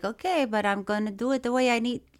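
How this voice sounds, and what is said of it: Imitates another person's put-on accent. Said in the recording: “You're copying an already copied accent. It's a hat on a hat.”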